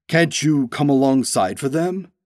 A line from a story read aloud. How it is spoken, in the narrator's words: he asked